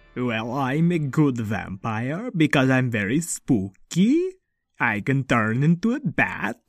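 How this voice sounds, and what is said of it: Vampire character accent. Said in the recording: “I have this wonderful accent”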